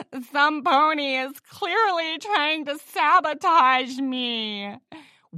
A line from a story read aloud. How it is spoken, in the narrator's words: whined Ritzy Rose